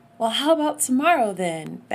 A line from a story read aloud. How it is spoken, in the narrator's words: begged